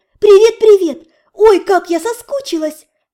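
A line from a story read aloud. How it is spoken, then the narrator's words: Joyful. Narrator (Russian): Радостно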